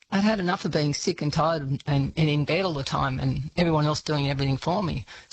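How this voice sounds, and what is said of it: Husky, damaged-sounding voice. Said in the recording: “throat cancer. That's why I've got this sexy voice.”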